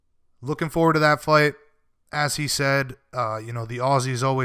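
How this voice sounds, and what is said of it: Usual voice. Nothing is said of it.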